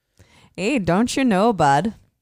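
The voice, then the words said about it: Put-on Canadian accent. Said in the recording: “What do you give my Canadian accent? ... your Canadian accent is like a mixture between Minneapolis”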